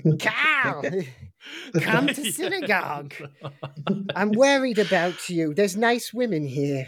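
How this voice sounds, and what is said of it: Put-on Australian / Jewish grandmother accent. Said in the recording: “I'll do the Australian accent, but it's not far from like my Jewish grandmother's accent... I'm not sure if I'm in Western Sydney or somewhere in New York”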